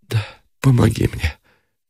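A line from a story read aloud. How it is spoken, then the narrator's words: Weak deathly whisper. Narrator (Russian): прошептала она смертельно посинелыми губами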